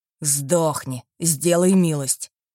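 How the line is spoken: Hiss. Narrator (Russian): прошипел он

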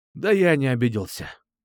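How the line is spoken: Sincere reply. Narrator (Russian): честно ответил я

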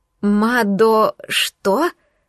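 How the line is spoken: Stuttering. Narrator (Russian): Заикаюсь

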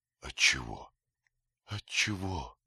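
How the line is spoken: Soft whisper. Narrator (Russian): по-прежнему тихо шептали ее губы

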